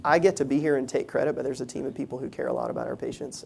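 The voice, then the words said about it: Southern American accent. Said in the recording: “a lot of my Southern accent”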